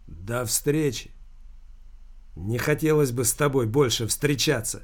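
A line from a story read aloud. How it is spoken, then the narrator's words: Angry voice. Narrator (Russian): злым голосом проговорил таксист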